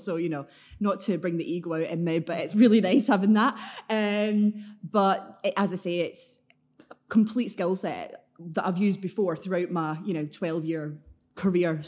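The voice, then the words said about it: Glaswegian Scottish accent. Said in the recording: “you can tell by your accent, you're not a Manchester native ... keep the Glaswegian accent ... It's quite threatening when I want it to be”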